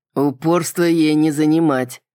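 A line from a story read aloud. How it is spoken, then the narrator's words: Large dragon's snort. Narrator (Russian): хмыкнул крупный дракон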